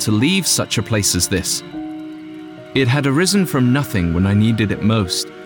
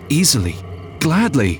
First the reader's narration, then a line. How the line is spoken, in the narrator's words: I stammered